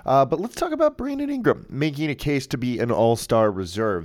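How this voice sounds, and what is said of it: Strained, sick-sounding voice. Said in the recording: “I am fighting off a nasty cold bug, whatever, and it almost hurts to talk right now. So you can probably hear it in my voice a little bit.”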